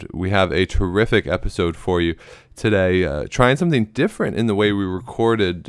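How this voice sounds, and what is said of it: Hoarse, slightly strange voice. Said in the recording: “apologize for my voice off the top. I've been a little hoarse ... I just sound a little strange, a little different than normal”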